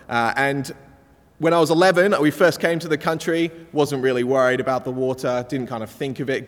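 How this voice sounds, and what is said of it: Mixed English and Australian accent. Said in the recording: “I've got a bit of a hybrid accent. I'm half English, kind of half Australian thing going on.”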